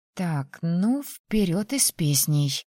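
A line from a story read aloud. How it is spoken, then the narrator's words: Cheerful mutter. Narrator (Russian): Пробормотала под нос и бодро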